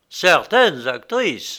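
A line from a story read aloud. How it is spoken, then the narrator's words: Curt retort. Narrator (French): rétorqua Arthur d'un ton sec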